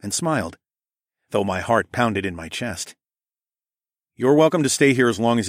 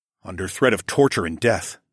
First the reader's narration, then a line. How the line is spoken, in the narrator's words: I grunted